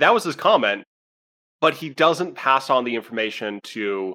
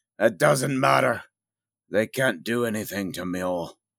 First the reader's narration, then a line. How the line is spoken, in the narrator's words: He nods gruffly and says